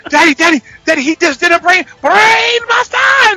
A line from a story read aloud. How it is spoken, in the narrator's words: she screams it